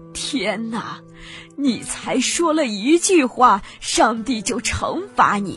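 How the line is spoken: Old woman crying. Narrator (Chinese): 老妇人……不觉得大哭起来，说道

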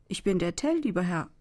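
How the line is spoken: Plain answer. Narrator (German): antwortete dieser

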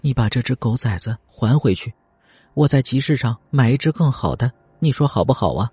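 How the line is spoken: Soft. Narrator (Chinese): 轻声说道

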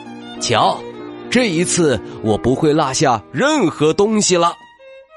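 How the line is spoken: Smug calling out. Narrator (Chinese): 他得意的喊来熊奶奶

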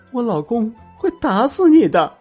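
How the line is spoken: Crying, tearful. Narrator (Chinese): 他眼中带着泪光，哭着对我说

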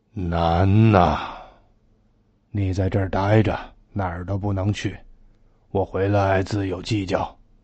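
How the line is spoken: Sighing. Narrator (Chinese): 五爷叹口气

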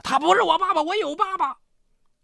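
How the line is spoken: Angry roar. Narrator (Chinese): 汪立明怒吼着

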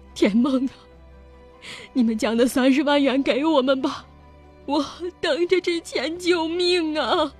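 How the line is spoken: Crying, pleading. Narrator (Chinese): 丁雪哭着哀求

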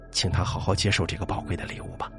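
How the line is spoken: Soft. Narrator (Chinese): 新字幕轻声说

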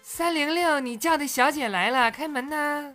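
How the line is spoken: Calling repeatedly. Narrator (Chinese): 我叫了半天

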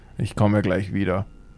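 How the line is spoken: Murmured. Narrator (German): murmelte

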